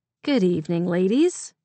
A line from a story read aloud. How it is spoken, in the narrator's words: said cheerfully